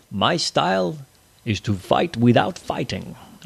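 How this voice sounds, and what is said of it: Bruce Lee attempt sounding like Sean Connery. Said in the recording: “that sounds more like Sean Connery. I cannot do a Bruce Lee accent.”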